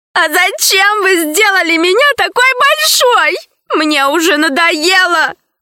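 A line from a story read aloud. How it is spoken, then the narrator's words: Sobbing. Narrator (Russian): продолжала рыдать рабыня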